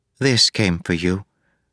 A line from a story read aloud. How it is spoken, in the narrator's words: Kath said softly